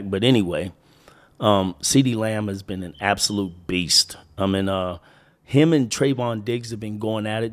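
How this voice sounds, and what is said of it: Winded, slightly altered sick voice. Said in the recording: “a little winded or my voice is a little bit different. I am getting over a chest cold”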